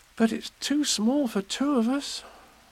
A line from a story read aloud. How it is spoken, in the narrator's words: said Christopher Robin sadly